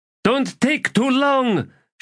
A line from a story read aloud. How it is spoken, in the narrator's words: she shouted after him